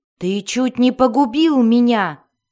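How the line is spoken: Angry shout. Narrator (Russian): сердито закричал Дзирт

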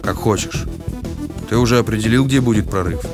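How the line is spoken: Gruff mutter. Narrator (Russian): Он только буркнул

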